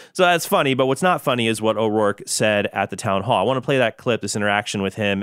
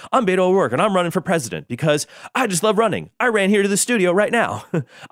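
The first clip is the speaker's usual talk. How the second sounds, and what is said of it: Imitates another person's voice. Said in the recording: “Jimmy Fallon does a spot on Beto O'Rourke impersonation ... Jimmy Fallon, Beto O'Rourke impersonation.”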